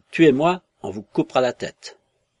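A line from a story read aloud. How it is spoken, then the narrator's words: Man yelling. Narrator (French): Il continuait à vociférer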